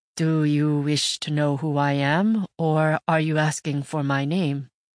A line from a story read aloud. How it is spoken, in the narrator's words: Clearing my throat, I said slowly, to buy myself some time